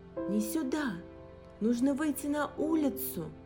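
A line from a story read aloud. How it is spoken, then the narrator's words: Screaming. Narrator (Russian): закричала Алиса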